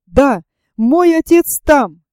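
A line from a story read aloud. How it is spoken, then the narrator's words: Eager shout. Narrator (Russian): крикнул Роберт, жадно глядя на карту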